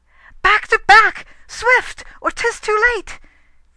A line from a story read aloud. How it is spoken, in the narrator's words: She cried